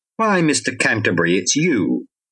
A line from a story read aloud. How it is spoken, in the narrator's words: an old lady's voice objected sharply